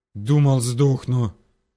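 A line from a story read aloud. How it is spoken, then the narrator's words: Gasping wheeze. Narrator (Russian): прохрипел он, жадно глотая ртом воздух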